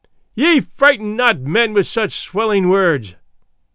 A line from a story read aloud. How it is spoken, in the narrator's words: he cried out